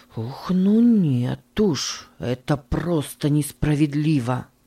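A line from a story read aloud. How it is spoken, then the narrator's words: Grumbling. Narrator (Russian): ворчал он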